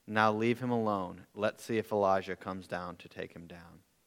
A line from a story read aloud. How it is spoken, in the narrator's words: said